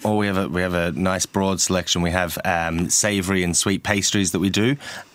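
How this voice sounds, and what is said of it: Slight Australian accent. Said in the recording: “Australian twinge to your accent there ... I kind of lost the accent.”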